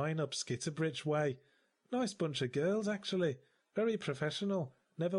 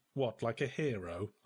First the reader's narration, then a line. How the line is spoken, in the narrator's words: I snapped